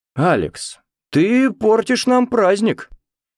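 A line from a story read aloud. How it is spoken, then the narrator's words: Exclamation. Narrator (Russian): воскликнул Роберт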